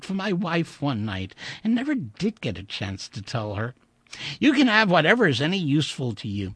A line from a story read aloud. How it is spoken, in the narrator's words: he giggled